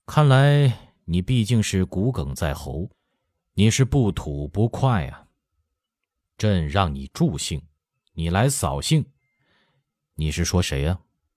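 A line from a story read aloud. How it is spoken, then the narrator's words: Icy, slow, resentful. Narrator (Chinese): 乾隆目光有些愤郁，口气冷得像凝霜寒冰，缓缓说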